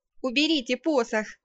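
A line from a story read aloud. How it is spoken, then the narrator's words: Shouted. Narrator (Russian): крикнула я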